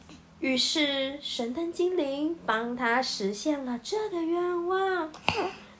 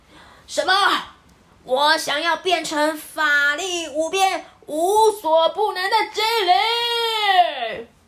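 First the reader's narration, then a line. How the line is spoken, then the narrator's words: Sudden shout. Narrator (Chinese): 甲方立刻大喊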